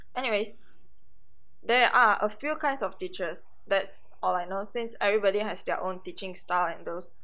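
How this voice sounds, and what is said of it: Voice in poor condition, strained. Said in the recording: “my voice isn't that good, it isn't in the best condition today”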